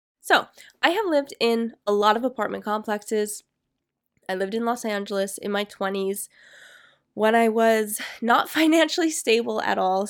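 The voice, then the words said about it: Raspy voice. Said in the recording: “my voice is getting raspy”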